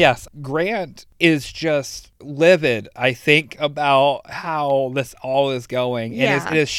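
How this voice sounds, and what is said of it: Usual voice. Nothing is said of it.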